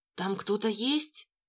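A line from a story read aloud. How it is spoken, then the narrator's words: Whisper. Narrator (Russian): начала шептать Мася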